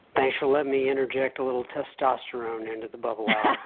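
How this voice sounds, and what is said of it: Texan accent. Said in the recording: “I hear Texas when you say www... we could hear the Texas, that's for sure”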